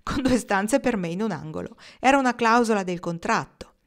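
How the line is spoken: Laughing reply. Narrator (Italian): rispose ridendo

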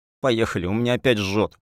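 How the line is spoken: Near moan. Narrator (Russian): Почти простонала Зуля

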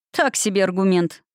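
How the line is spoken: Chuckling. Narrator (Russian): хохотнул он

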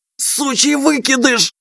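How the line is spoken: Hissed. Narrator (Russian): прошипел

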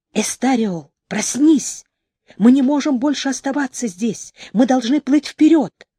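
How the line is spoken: Whispered. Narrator (Russian): Гед разбудил друга, прошептав

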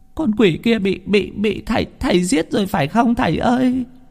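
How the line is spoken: Tearful old woman. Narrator (Vietnamese): bà mếu máo

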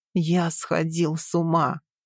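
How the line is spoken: Shaking whisper. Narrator (Russian): Прошептал он, и я почувствовала, как его плечи содрогаются

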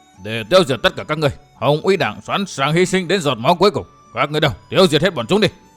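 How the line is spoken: Thunderous roar. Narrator (Vietnamese): Miêu Như Đồng lão quát như sấm

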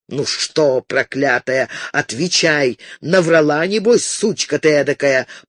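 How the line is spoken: Growling. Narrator (Russian): прорычал

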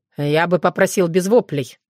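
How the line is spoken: Stern. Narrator (Russian): строго сказал Соколовский

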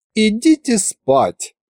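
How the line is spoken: Pitying, snide empress. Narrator (Russian): сжалилась над нами императрица и ехидно улыбнулась

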